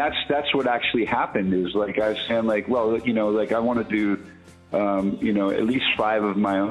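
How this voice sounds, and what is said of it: Usual voice. Nothing is said of it.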